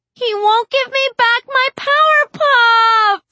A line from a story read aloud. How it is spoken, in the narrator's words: Glory shrieks, and she starts to cry